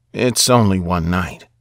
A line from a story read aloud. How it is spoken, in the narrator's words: whispered to my worried mom in a consoling tone